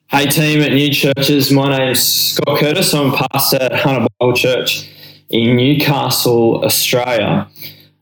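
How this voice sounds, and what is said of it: Australian accent. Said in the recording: “a guy with a excellent accent ... we hung out in Australia”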